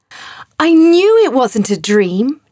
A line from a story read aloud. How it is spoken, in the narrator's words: Joseph shouted in delight